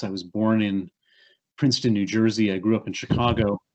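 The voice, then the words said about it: American accent. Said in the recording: “you hear my accent. It's an accent from the United States.”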